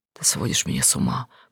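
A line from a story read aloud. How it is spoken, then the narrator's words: Whisper. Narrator (Russian): прошептал он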